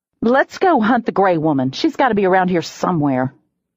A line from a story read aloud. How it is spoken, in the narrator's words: I growled